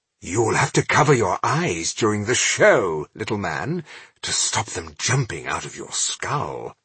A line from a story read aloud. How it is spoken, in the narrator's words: he said in a conspiratorial undertone